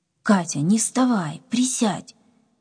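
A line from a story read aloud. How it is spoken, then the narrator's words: Angry command. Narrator (Russian): сердито приказал ей Вася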